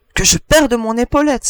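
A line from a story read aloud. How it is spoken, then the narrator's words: Adjutant exclaiming. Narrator (French): s'écria l'adjudant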